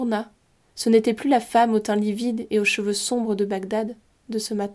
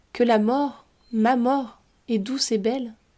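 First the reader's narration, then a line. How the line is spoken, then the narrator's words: Dying moan. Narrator (French): gémit-il dans un dernier souffle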